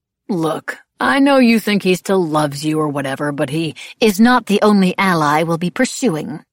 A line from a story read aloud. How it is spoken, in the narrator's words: Madame Lebel said curtly